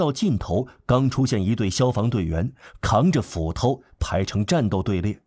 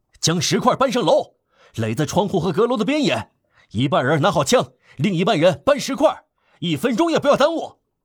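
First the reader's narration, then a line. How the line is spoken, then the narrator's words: Thunderous shout. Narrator (Chinese): 昂若拉 从街垒高处发出着雷鸣般的呼喊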